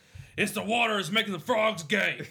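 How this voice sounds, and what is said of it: Imitates another person's voice. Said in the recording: “You love Alex Jones, bro. Is it just that one impression?”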